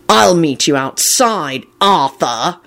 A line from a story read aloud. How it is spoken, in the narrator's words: he snarled in a deathly tone